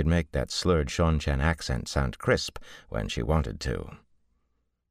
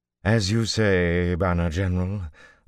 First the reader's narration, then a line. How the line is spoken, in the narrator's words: Falloon sighed